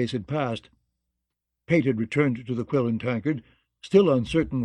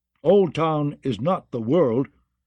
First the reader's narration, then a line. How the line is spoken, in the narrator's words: declared too loudly